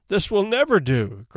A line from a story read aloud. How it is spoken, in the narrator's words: cried Rebecca